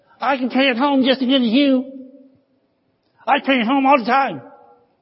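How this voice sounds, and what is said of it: Whiny little demon voice. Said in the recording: “that little demon ... I hear his little whiny voice right now”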